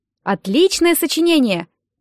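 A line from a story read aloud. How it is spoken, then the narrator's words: Enthusiastic shout. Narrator (Russian): крикнул Нэт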